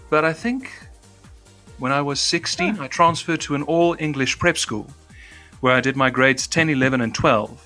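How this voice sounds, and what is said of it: Transatlantic English-trained accent. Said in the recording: “There's me who communicates in a transatlantic accent ... You even made that sound lovely ... I shed my native accent very young because I'm English trained”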